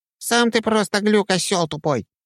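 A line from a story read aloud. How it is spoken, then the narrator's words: Squeaky. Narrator (Russian): пропищал Петька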